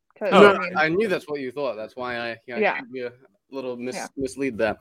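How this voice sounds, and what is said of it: Speaks with a noticeable accent. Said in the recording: “your accent ... a lot of people take me very seriously because of the accent”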